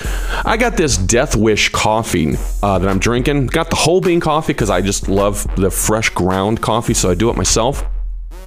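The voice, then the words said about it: Speaking with an unusual accent. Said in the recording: “where's that accent coming from? Good Lord. ... making me talk like this ... talk with an accent”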